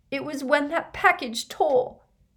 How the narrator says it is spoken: sobbed Leanne

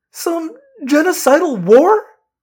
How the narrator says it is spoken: Cassie said, her voice cracking

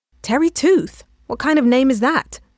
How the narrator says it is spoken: I said to Ruth really loudly

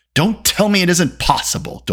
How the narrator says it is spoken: Doli snapped

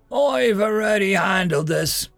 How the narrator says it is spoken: he called out

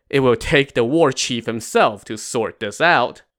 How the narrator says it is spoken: Wu Yong laughed and said

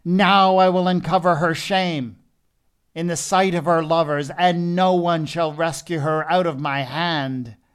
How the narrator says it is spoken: He cried out

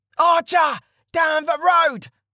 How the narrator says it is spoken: the leader screamed

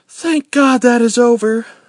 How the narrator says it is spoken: Elizabeth said, heaving a sigh of relief

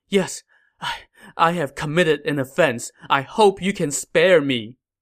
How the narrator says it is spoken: Kneeling on the ground, Cao Fang pleaded

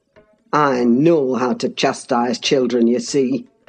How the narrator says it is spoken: said the scoundrel grimly

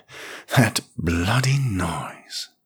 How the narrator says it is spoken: she panted

